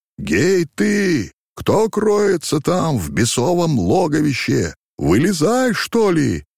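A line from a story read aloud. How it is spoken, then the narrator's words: Booming shout. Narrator (Russian): крикнул он зычным голосом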